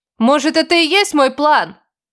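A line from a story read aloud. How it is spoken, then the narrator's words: Shouting. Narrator (Russian): закричала я ему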